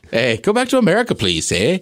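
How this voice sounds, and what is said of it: Terrible put-on Canadian accent. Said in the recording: “I'd do a terrible Canadian accent.”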